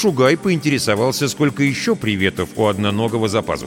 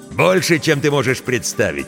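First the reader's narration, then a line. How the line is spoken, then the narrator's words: Laughing. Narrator (Russian): рассмеялся тот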